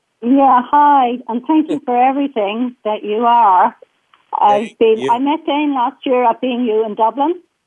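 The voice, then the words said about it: Irish accent. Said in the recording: “She's got an Irish accent.”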